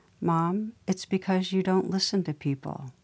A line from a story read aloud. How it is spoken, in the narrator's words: Kate gently said